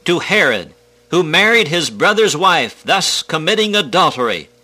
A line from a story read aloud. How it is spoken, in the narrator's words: John cried out